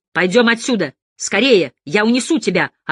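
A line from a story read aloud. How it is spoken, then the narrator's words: Yelling. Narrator (Russian): орал Барыбин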